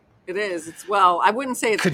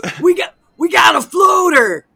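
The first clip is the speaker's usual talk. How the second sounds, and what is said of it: Imitates another person's voice. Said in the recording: “an impression of Chris Meloni ... my impression”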